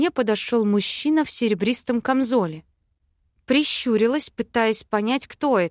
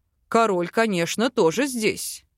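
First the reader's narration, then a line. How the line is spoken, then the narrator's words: Elf's snort. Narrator (Russian): хмыкнул эльф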